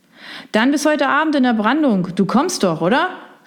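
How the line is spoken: Shouting loudly over surf. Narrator (German): rief er ihm laut durch die Brandung zu

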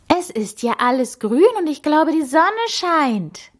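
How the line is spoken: Excited exclamation. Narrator (German): rief sie begeistert

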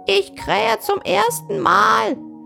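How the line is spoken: Golden rooster calling down. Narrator (German): rief der goldene Hahn herunter

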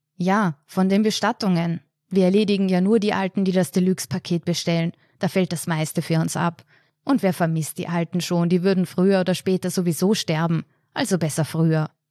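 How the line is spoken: Plain. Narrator (German): sagte der Bestatter

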